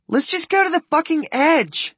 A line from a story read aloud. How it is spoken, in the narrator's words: Kim yells